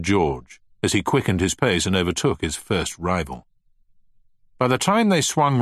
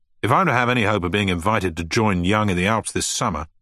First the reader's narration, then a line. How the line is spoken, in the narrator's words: snapped Finch